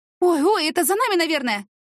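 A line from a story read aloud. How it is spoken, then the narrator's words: Exclamation. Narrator (Russian): воскликнула Яна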